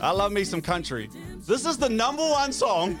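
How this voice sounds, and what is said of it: Yelling loudly. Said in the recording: “Sorry, I'm yelling. ... I'm yelling.”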